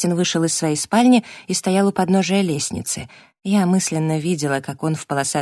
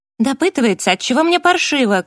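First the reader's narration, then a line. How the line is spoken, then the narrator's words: Shout. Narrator (Russian): крикнула я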